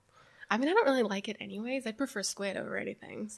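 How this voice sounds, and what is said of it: American accent. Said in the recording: “if people haven't guessed from the accent ... you're from the United States.”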